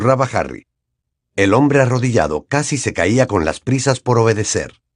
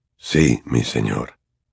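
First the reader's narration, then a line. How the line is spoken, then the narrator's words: Hoarse, choked, relieved voice. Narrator (Spanish): contestaba este con voz ahogada y ronca, cargada de alivio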